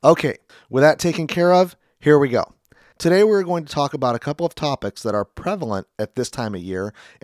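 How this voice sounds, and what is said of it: Raspy, slightly unclear voice. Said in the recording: “my voice doesn't sound so clear or if it sounds a little off today. It's a little bit raspy. I've been dealing with a sore throat and a cold, and it has affected my voice and my ability to speak clearly.”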